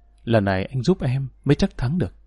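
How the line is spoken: Intimate whisper. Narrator (Vietnamese): Cô thủ thỉ

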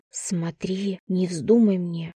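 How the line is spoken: Whisper. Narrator (Russian): шепотом сказала я своему животу

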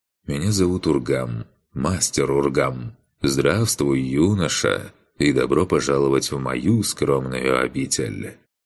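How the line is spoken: Pleasant low voice. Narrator (Russian): отрекшийся приятным низким голосом произнес

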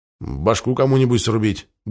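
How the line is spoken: Grumbling. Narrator (Russian): буркнул Слим

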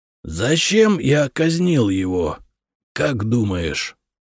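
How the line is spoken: Creaky voice. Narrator (Russian): проскрипел Хиндасвинт

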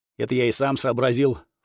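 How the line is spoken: Young monk snorting. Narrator (Russian): фыркнул монашек

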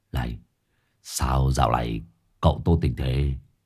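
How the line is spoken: Quiet voice. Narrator (Vietnamese): Hải nghẹo nhỏ giọng

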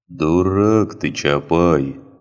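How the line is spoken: Tired sigh. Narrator (Russian): устало вздохнул священник

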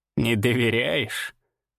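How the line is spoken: Skeptical snort. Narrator (Russian): хмыкнула Ирма

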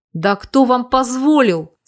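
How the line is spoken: Father's indignant bark. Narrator (Russian): С возмущением рявкнул отец мальчишек

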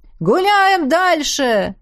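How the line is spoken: Shouting over loud music. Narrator (Russian): Заорал он, перекрывая даже басы

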